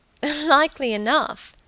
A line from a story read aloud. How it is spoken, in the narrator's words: Helen laughed